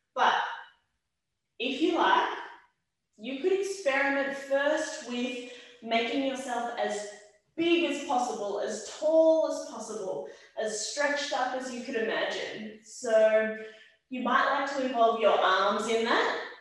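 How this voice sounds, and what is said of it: Raised, loud voice. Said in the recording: “I'm gonna raise my voice because I know I'm far back from the microphone”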